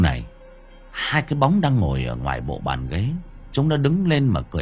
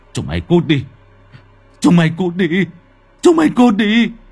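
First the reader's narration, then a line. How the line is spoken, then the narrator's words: Screaming. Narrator (Vietnamese): Ông Vinh lúc này hét lên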